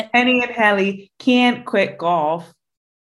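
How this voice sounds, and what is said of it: Put-on American accent. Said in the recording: “I'm going to do it the American way ... Was that accent? How was that on a scale of 1 to 10? ... That was great.”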